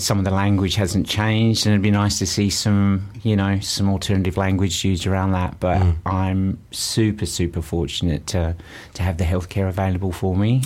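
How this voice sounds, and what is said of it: Strong Australian accent. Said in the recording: “there's an Antipodean accent there, a roaring one... Northern Australia... my accent came back with a vengeance”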